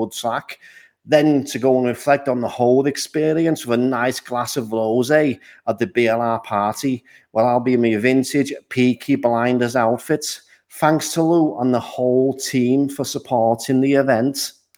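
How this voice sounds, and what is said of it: Poor attempt at Scouse accent. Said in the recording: “me attempt a Scouse accent ... I am not very good at them, as you can tell”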